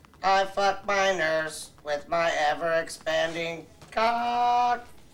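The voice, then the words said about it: Robotic synthesized voice. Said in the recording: “in a robot voice ... Stephen Hawking”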